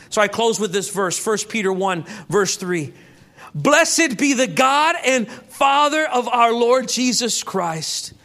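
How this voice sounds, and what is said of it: Loud, shouting preacher voice. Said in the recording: “I'm sorry if I'm shouting. ... you just have a loud voice. You just have a loud mouth.”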